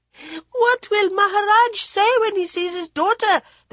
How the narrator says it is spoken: they shrieked

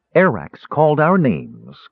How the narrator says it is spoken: Kiiri said

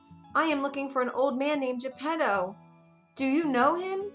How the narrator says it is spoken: Pinocchio called out

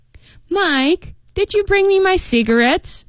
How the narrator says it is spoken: She whined

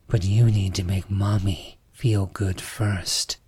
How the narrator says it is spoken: she said, her voice low and sensual

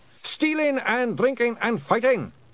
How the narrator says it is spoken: shouted the blue men cheerfully

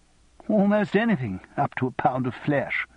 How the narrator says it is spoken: he added with a false laugh

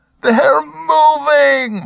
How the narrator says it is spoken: Marcus screamed at the Mountie and the rest of the world

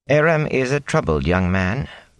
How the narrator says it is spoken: Rain added sadly

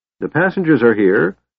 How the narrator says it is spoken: called out a voice

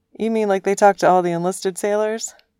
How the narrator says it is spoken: The captain laughed

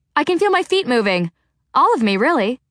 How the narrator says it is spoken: Clarice exclaimed

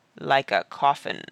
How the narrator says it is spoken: said Barney in a hollow voice behind the door

